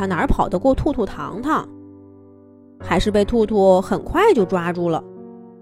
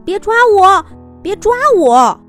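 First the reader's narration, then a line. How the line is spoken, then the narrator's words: Terrified little fish shouting. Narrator (Chinese): 那条小鱼…惊恐的跳得老高…一边跳一边大声喊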